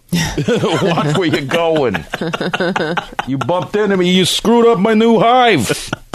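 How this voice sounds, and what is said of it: Put-on New York accent. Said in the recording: “I imagine killer bees have a New York accent.”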